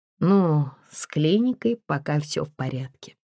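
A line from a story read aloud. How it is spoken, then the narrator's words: Sad smiling voice. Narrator (Russian): грустно улыбнулся Игорь Анатольевич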